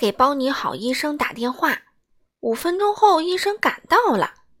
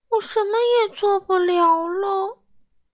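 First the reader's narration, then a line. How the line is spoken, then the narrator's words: Crying. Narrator (Chinese): 他哭道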